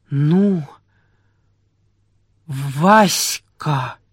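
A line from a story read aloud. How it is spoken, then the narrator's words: Stammering voice. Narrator (Russian): послышался чей-то запинающийся голос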